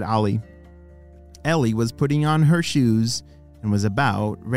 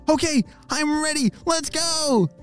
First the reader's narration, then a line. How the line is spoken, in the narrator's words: shouted Ollie